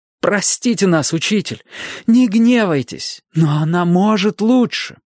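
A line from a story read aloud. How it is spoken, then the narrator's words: Old-fashioned exclamation. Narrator (Russian): в духе старых времен воскликнул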